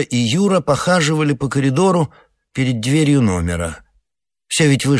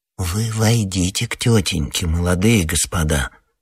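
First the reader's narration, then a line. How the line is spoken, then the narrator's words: Slow quiet persuasion. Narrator (Russian): Во второй раз неторопливым тихим голосом убеждал подошедший к мальчикам коридорный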